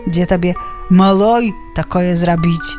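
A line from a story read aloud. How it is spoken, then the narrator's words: Sighing. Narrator (Belarusian): Уздыхае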